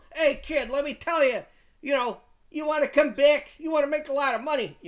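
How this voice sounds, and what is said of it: Put-on Chicago accent. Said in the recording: “I've done this Chicago accent for Dana ... I've given Dana a Chicago accent.”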